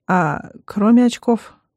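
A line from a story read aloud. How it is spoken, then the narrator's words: Somewhat dejected question. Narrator (Russian): несколько упавшим голосом спрашивает он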